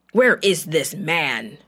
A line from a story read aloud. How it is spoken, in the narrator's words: the king of Aram roared